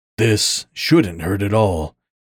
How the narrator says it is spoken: he growled

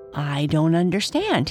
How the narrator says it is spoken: said

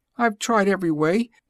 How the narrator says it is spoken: the pigeon said desperately, with a kind of sob

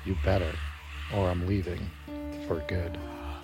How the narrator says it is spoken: the spirit of the woman whispered back

